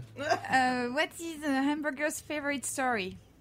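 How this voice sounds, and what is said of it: French accent. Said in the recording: “French accent, please.”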